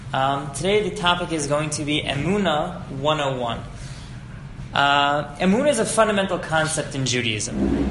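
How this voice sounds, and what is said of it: New Jersey accent. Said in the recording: “I only wish my accent was half as good as his ... I'm from Jersey, so you know we got a Jersey accent over here”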